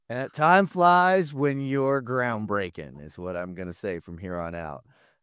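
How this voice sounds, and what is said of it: Slightly gravelly, strained voice. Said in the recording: “My voice is still a little extra gravelly from it because, you know, talking over all that noise”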